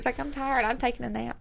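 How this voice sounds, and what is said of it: Imitates an older woman's voice. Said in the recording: “That was a good impression.”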